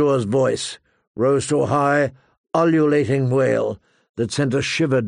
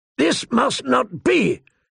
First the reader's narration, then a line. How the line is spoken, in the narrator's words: Kotho thundered